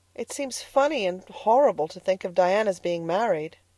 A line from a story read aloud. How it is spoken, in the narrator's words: sighed Anne